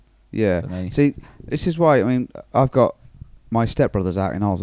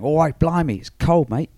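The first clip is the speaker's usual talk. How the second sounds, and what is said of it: Put-on Australian accent, passable. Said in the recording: “It's my Australian accent. Do you like it? ... It was all right. I'll let you off.”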